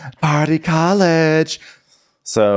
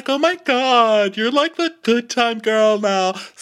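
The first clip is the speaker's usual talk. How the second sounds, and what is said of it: Fake-friendly high-pitched voice. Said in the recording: “talking in that high voice where she really hates you, but she's trying to pretend she likes you”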